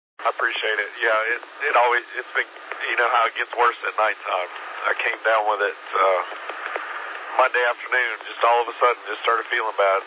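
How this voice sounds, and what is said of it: Weak, failing, sick-sounding voice. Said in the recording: “don't sound good ... my voice is going away today”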